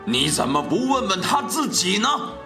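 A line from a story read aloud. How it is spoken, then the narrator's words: Roaring tiger. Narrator (Chinese): 老虎咆哮着说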